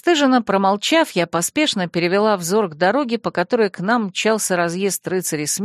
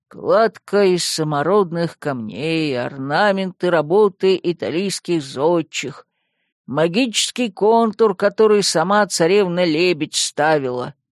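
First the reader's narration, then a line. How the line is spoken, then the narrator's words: Gloomy listing. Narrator (Russian): мрачно перечислил Яр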